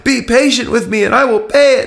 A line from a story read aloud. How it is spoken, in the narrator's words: he pleaded